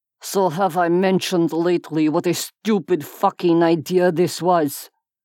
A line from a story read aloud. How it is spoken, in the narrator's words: Cade asked